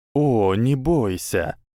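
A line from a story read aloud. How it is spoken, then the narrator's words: Breathed out. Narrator (Russian): выдохнул голос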